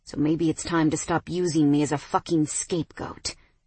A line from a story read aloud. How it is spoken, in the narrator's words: Mason hissed